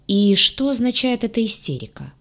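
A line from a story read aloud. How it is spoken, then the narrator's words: Eerily calm question. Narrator (Russian): пугающе спокойно поинтересовался капитан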